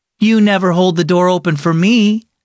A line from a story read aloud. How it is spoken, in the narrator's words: said Nora